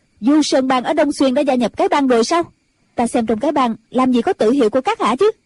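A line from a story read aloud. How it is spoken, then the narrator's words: Sudden shout. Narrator (Vietnamese): Ân Tố Tố bỗng quát lên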